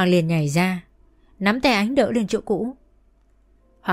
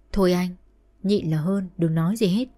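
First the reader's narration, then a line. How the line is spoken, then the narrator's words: Soft urging. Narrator (Vietnamese): Ánh khẽ bảo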